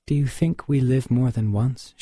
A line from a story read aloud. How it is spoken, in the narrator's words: asked